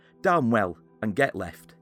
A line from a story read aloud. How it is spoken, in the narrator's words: in a short tone replied